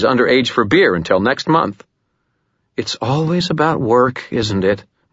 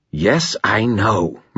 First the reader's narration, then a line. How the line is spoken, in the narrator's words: Murphy growled